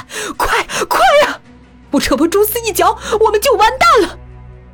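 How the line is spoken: Terrified screaming. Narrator (Chinese): 风影惊恐的扯着喉咙狂喊

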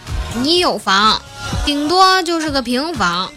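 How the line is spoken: Flat, indifferent. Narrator (Chinese): 淡淡的说

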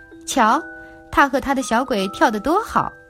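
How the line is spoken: Robbers laughing. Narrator (Chinese): 别的强盗们都笑起来，说

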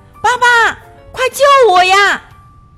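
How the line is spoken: Pitiful cry. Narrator (Chinese): 他可怜巴巴地呼喊着

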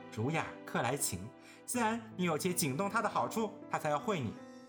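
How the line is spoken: Laughing. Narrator (Chinese): 湘云笑道

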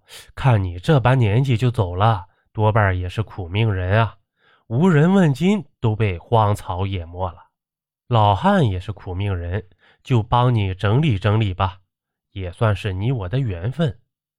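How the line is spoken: Sighing old man. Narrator (Chinese): 这孙老汉叹道

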